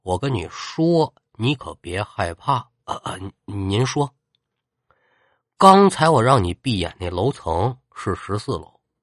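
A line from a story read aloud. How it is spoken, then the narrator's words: Hushed muttering. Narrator (Chinese): 老冯小声可就给他嘀咕了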